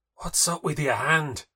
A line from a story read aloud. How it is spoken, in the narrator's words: whisper